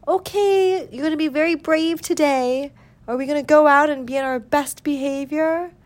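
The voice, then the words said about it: Elevated teacher-like voice to pets. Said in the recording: “I spoke to my cats in an elevated voice that was kind of like a teacher”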